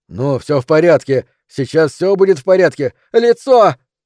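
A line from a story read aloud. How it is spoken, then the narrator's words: Loud, shouting over someone. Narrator (Russian): громко заговорила, стараясь перекричать ее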